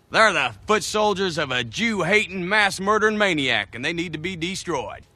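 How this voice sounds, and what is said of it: Imperfect Southern US accent. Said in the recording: “Southern accent ... Tennessee accents and Southern accents in general have something called goose fronting ... He doesn't really get that.”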